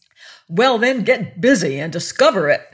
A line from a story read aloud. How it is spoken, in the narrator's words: snapped the queen